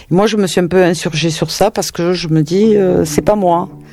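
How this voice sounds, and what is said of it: Southern French Toulouse accent. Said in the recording (French): “J'ai fait du théâtre sur Toulouse pendant presque 40 ans. On a essayé souvent de corriger mon accent ... Mon accent fait partie de ce que je suis”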